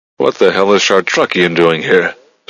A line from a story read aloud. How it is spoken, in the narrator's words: Strathmore growled